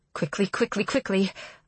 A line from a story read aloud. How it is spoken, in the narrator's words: Aurora mutters